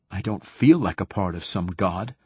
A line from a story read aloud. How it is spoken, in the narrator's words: I said sharply